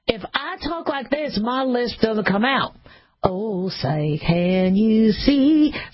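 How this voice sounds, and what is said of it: Southern twang accent. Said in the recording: “throw in a southern accent. And when I added a twang”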